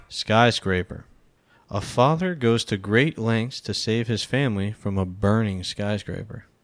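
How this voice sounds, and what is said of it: Audiobook narrator voice. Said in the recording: “Why do you sound like an audiobook?”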